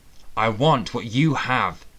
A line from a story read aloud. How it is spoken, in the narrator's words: he growled